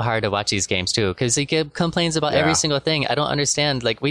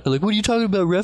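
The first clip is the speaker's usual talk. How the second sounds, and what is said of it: Exaggerated Luka Doncic impression. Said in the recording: “terrible Luka impression ... it was a perfect impression”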